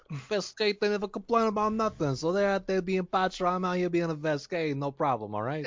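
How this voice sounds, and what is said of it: Tough-guy alien character accent. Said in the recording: “I think that's the canon accent for Vesk now.”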